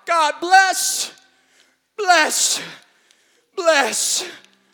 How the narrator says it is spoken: cried out

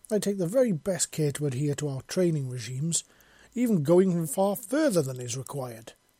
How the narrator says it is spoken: she exclaimed

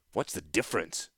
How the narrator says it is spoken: Gerrard snapped

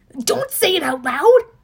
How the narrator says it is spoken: He yelped

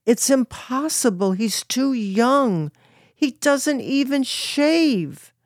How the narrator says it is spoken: Stanley then screamed

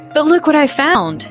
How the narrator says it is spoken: exclaimed a little louder than I meant to

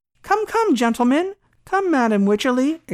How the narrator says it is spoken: exclaimed the doctor

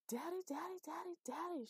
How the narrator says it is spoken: she shouted

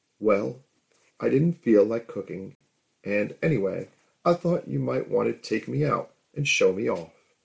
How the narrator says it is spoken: giggled

